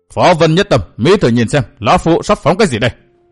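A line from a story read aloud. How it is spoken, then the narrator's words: Shouted question. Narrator (Vietnamese): Đông Sắt miệng quát hỏi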